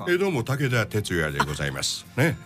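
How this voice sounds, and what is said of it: Imitates another person's voice. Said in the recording (Japanese): “坂本、金八、この モノマネ”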